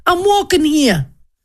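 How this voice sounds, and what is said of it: Put-on New York accent. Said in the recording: “That's my New York, in case no one knows. I'm not doing another accent.”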